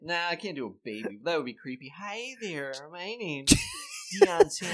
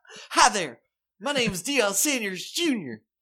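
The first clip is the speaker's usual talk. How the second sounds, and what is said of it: Imitates another person's voice. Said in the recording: “Just continue with your George W. Bush voice again.”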